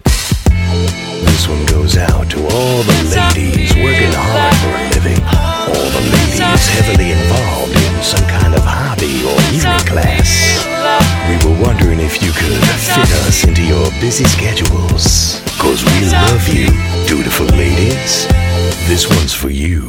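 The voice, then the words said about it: Sexy, sultry spoken voice. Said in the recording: “the amazing sexy voice”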